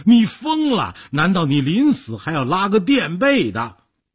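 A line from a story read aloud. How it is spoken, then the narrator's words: Trembling, terrified. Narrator (Chinese): 说着抖成一团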